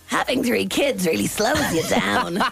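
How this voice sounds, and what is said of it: Strained Marge Simpson impression. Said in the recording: “do your best Marge Simpson impression ... I'd say that really hurt ... Don't strain yourself now.”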